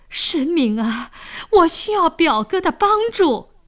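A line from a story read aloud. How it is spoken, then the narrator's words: Pleading. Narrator (Chinese): 沈呆跪在地上哀求说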